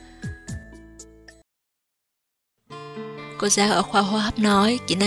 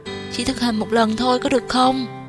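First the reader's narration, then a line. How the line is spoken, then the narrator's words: Pleading. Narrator (Vietnamese): Vệ Nam cầu xin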